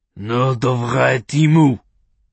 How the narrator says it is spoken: the rabbi spat in Russian

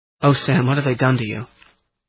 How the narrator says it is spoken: Her voice was so choked that I could hardly understand her

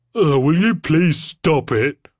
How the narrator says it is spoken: moaned Daniel

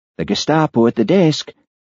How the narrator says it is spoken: whispered Hamish

